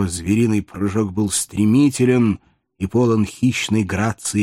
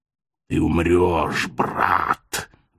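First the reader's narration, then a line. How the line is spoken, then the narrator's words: Hoarse wheezing werewolf, fighting. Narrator (Russian): вновь и вновь бросаясь в атаку, хрипел волколак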